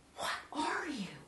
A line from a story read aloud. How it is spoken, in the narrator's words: I whisper